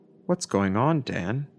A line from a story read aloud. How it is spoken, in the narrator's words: I asked quietly